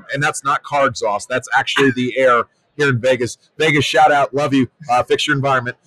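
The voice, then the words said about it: Hoarse, raspy voice. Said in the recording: “You got to be like hoarse a little bit... I am. My voice has definitely changed. It's gone from a deep bravado to a 40-year chain smoker in a matter of 48 hours from just the amount of podcasting that I've done. And also dry desert air”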